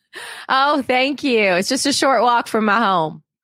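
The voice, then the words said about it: Put-on Southern American accent. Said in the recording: “a whole accent with a character ... it's in the South”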